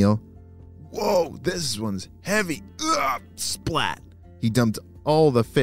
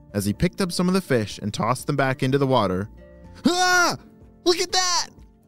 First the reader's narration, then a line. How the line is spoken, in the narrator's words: shouted Lee